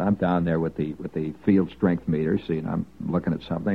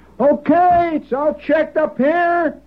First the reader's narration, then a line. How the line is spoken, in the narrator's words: Somebody hollered